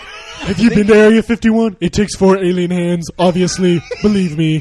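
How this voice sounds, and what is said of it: Good impression of a president's voice. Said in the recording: “That's a pretty good impression. ... He's the best presidential impersonator. ... You sound just like him.”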